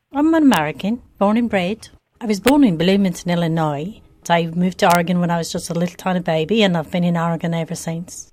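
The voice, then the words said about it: Mixed English, Irish, Scottish-sounding accent. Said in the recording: “sounds like some sort of hybrid of English accent, some Irish or Gaelic intonations, and even some Scottish flavor.”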